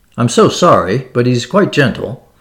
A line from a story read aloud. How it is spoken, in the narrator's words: cried Capor